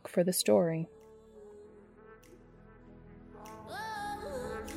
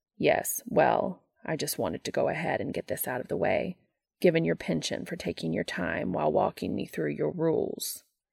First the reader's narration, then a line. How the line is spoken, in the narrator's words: Castiel replies icily